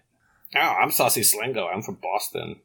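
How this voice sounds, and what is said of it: Put-on Boston accent. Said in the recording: “That was a great Boston accent.”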